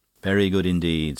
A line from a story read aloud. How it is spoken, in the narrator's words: said Lord Molin